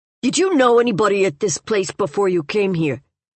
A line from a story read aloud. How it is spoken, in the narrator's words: younger man asked sharply